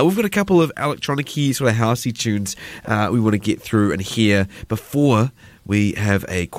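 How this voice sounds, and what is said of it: Usual voice. Nothing is said of it.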